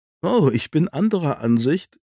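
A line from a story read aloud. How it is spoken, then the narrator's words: Laughing. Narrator (German): lachte Sean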